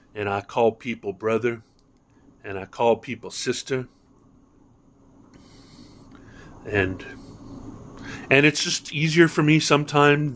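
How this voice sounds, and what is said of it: American Northeast accent. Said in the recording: “sounding like I'm like some nerd from the Northeast ... I say things like water ... by saying water, that is a tell that I'm in fact from the Northeast”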